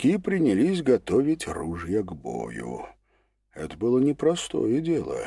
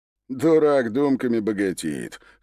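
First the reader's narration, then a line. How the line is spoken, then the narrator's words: Scoffing veteran gunman. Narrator (Russian): хмыкнул другой бывалый стрелок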